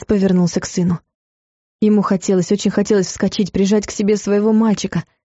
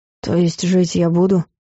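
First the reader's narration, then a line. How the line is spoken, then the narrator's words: Skeptical snort. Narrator (Russian): Клайв хмыкнул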